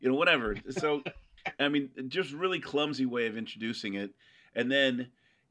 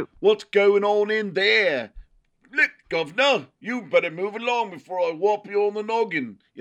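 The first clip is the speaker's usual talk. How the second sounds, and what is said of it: Put-on British accent. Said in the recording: “these horrible British accents”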